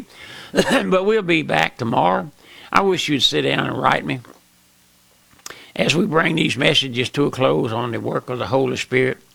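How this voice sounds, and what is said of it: Hoarse, strained voice. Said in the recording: “I can't sing. I'm losing my voice. I got a frog in my throat, so to speak.”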